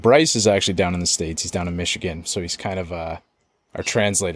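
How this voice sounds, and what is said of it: Strong Canadian accent. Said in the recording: “my accent ... It's like very Canadian when I say about or a boot”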